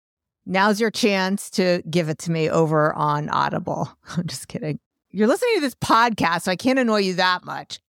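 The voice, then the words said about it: New York accent. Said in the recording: “if you don't like when I laugh when I talk, if you don't like my New York accent.”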